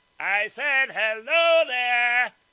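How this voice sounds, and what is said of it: Shouting loudly. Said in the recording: “Can you speak a little louder, please? ... Why are you screaming?”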